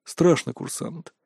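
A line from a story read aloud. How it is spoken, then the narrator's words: Calm. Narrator (Russian): спокойно ответил Лендаорн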